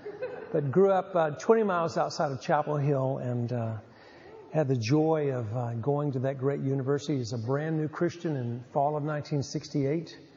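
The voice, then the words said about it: Southern US redneck accent. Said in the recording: “come by that Tar Heel thing, honestly, as you'll hear in this redneck accent”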